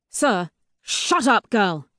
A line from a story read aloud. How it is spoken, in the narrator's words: he snaps